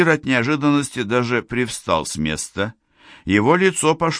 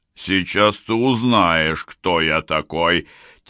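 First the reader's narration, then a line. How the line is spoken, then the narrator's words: Ominous voice. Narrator (Russian): Тем же зловещим голосом ответил Набонид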